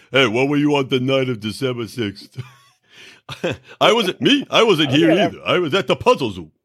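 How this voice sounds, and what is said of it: Yogi Bear-like impression of a friend. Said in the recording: “This is my impression of our big buddy George. ... He's Yogi Bear. ... That's what he sounds like.”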